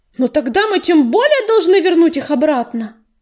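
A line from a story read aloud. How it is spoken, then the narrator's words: Shouted out. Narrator (Russian): выкрикнул он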